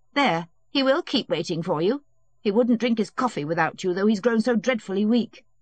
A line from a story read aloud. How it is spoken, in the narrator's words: something unnatural about Anna Pavlovna, and utterly unlike her good nature when she said angrily